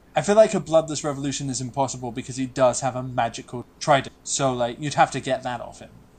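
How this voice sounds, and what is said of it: British accent. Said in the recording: “says the guy with the British accent”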